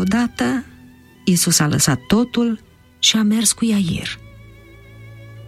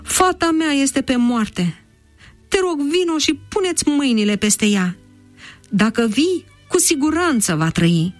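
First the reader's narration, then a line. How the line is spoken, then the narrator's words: Sighed. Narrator (Romanian): a suspinat el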